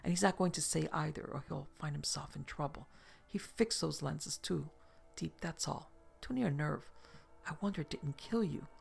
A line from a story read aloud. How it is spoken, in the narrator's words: she whispered